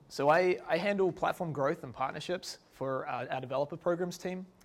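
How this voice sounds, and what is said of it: New Zealand accent. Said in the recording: “I'm from New Zealand, as you may be able to tell from my accent.”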